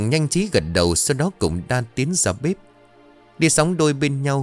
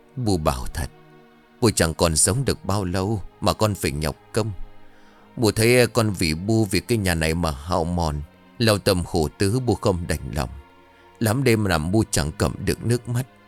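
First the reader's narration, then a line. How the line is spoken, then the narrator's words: Weary sighing reply. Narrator (Vietnamese): Bà luôn thở dài, mệt nhọc đáp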